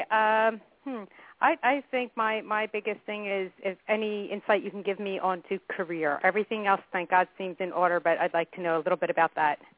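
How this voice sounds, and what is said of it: American accent. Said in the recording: “You sound American. ... I'm a Yankee. ... Stateside.”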